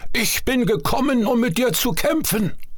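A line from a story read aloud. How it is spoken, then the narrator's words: Called out. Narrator (German): rief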